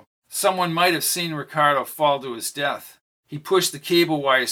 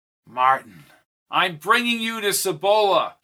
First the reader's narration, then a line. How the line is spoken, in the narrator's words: he yelled through the helicopter noise